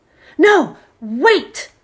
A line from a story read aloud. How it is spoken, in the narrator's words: shouted Magic